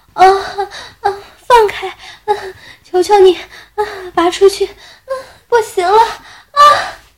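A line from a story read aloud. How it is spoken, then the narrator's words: Moaning, panting. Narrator (Chinese): 口中胡乱娇喘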